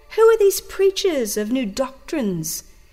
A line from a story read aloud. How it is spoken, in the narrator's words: exclaim those who desire a popular religion